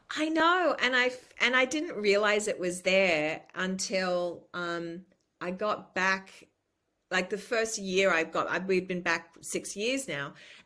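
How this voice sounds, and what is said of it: Accent with a slight lilt. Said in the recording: “you can hear a little bit of the lilt in your accent”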